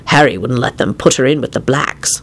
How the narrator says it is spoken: Lupin hissed

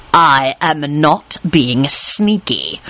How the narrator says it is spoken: he snarled

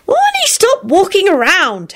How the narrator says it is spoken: Teddy hollered impatiently

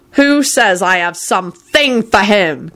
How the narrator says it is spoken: Kingsley roared at Ginny

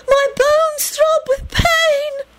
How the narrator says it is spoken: the girl cried out beseechingly

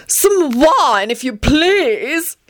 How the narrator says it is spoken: he shouted at the 18 vacant seats

